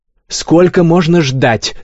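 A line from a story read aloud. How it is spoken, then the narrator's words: Shouting stout lady. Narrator (Russian): закричала полная дама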